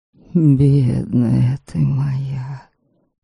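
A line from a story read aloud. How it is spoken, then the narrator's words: Whispering. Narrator (Russian): шептал Ваята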